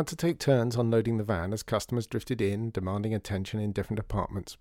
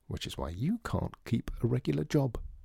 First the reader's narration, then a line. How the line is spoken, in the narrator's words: whispered Dor back